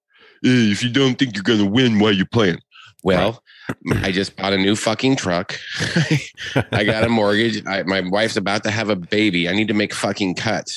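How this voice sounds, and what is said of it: Dorky imitation of another person's voice. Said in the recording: “talks like a dork.”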